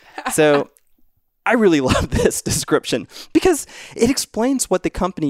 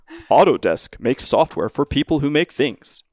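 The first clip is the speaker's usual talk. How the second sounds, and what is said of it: Radio announcer voice. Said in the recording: “in my radio announcer voice”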